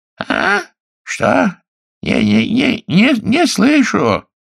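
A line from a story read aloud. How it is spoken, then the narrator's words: Shaky old man's voice. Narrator (Russian): Майкл нетвердым старческим голосом говорил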